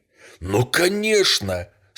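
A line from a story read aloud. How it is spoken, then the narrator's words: Impatient exclamation. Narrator (Russian): с нетерпением воскликнул герцог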